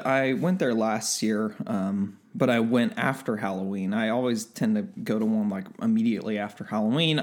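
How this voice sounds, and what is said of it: Crackly early-morning voice. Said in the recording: “early in the morning, so that's hence why my voice is all crackly”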